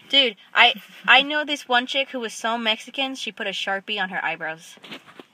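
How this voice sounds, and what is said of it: Adorable accent. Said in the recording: “You have an adorable, like, I don't know. Do you have, like, an accent, or is it just your voice? ... I think it's my accent.”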